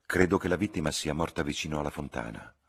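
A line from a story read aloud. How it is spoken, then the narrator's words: Plain. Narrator (Italian): rispose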